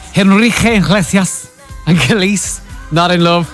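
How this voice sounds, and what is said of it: Bad put-on Spanish accent. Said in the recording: “my really, really bad Spanish accent.”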